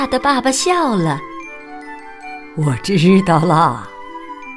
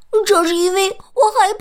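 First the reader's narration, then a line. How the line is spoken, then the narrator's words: Shouted. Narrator (Chinese): 他叫道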